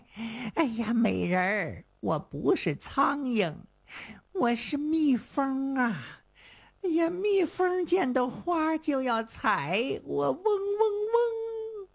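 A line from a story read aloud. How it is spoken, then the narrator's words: Wild laughter. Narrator (Chinese): 城西牛不仅不气，反倒狂笑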